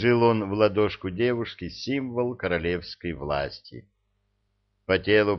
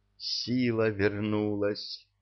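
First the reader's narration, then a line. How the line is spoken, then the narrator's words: Whisper. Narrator (Russian): прошептала она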